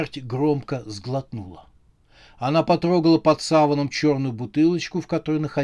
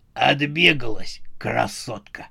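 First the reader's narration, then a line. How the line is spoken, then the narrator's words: Hoarse wheeze. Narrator (Russian): прохрипел брат Пога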